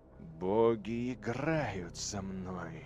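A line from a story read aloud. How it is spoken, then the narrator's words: Hissed. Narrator (Russian): прошипел Эйдолон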